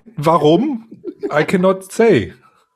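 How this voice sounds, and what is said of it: Put-on German accent. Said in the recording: “when I do my German accent”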